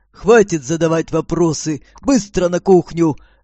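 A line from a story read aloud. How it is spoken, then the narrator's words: Barked. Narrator (Russian): рявкнул он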